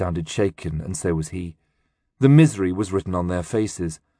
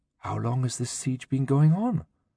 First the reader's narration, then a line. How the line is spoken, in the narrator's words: Kalila, who was pressed at his side, whispered